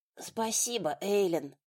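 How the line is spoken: Rasped. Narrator (Russian): прохрипела

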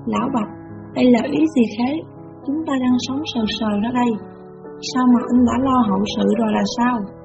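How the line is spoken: Agitated stammering question. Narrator (Vietnamese): Tôi kích động lắp bắp hỏi

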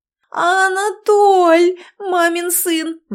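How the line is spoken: Wailing. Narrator (Russian): взвыла

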